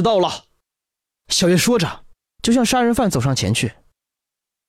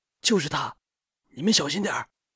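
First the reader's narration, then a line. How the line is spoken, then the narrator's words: Whispering. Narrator (Chinese): 小声说道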